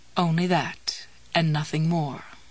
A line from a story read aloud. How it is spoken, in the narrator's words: Jessie murmured